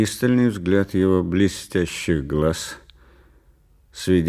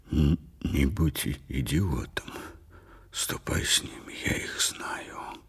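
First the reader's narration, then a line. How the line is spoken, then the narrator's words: Whispered through barely parted lips. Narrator (Russian): Уоллер прошептал, почти не разжимая губ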